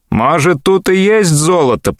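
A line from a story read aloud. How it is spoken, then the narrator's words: Grumbling. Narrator (Russian): проворчал Киньон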